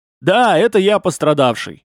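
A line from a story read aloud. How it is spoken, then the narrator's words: Loud confirmation. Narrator (Russian): громко подтвердил лошадник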